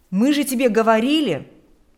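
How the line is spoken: Exclaimed. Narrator (Russian): смогут воскликнуть

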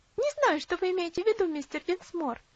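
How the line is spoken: Laughing answer. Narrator (Russian): ответила Луси, опять рассмеявшись

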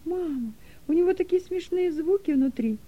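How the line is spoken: Joyful squeal. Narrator (Russian): радостно завизжал Дилека

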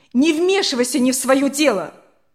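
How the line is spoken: Mother shouting. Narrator (Russian): закричала мама

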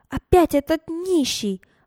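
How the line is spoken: Loud exclamation. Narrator (Russian): громко воскликнула Берта Петровна

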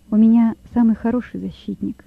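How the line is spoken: Calm. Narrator (Russian): спокойно сказал Лёва

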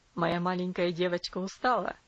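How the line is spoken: Tender question. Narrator (Russian): спросил ласково

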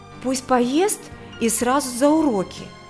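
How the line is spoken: Agitated. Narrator (Russian): взволнованно произнесла невестка

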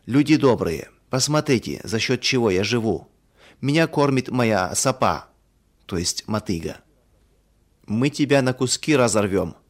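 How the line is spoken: Angry crowd shouting. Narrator (Russian): в гневе кричала одна половина сельчан

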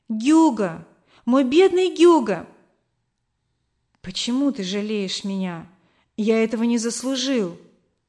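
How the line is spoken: Woman exclaiming. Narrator (Russian): мама воскликнула

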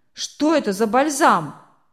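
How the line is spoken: Rough, distrustful question, miller. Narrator (Russian): грубо спросил мельник, недоверчиво

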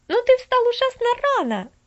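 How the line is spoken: Exclaiming. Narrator (Russian): воскликнула она

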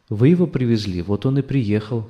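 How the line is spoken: Wife's calm reply. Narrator (Russian): спокойно ответила жена

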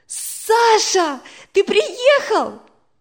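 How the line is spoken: Exclaimed. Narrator (Russian): воскликнула Надя

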